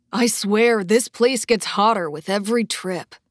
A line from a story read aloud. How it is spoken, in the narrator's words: one of the men grumbled